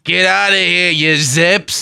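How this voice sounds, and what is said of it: Gruff impression of an actor's voice. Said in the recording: “my impression of Clint Eastwood in Gran Torino”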